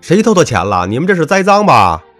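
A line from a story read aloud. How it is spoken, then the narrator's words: Shouting fiercely. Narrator (Chinese): 尤其我那个死对头，更是喊得厉害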